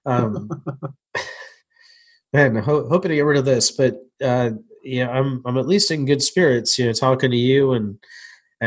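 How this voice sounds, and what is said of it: Congested voice from a cold. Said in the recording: “you can probably hear in my voice ... I had a cold and I got a cold again. So it probably doesn't sound any different.”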